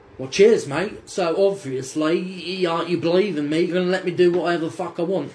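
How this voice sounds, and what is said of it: Poor Australian accent imitating Russell Crowe. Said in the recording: “Terrible Australian accent. Do not sound like Russell Crowe.”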